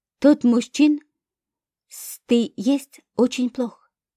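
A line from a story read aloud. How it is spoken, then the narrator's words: Strained, forced out. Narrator (Russian): выдавил из себя собеседник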